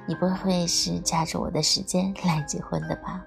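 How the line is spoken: Joking. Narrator (Chinese): 何言开玩笑说

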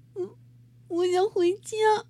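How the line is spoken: Sudden crying. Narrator (Chinese): 汤姆突然哭了起来

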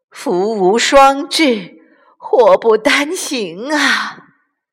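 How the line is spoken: Sighing. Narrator (Chinese): 卡莉姨妈叹了口气

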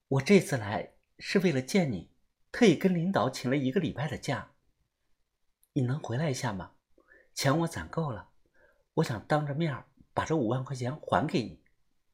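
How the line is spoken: Very gentle voice. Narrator (Chinese): 李静声音非常的温柔

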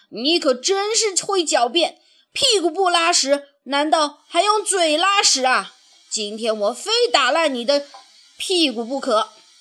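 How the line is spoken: Angry shouting. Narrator (Chinese): 主人一听这话，更恼火了，一边气愤地嚷着

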